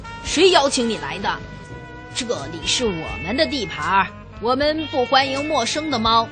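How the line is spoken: Snarling cat. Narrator (Chinese): 一只脏兮兮的灰猫咆哮着说

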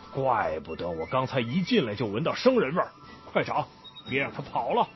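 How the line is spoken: Tiger roaring. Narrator (Chinese): 老虎一听，大吼一声

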